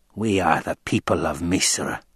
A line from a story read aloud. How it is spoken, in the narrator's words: the old woman rasped